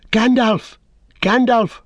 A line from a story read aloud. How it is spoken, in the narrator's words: cried Pippin